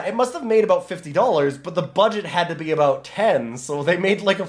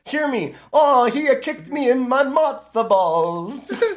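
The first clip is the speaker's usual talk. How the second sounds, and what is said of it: Put-on Italian accent. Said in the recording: “I can do an Italian accent.”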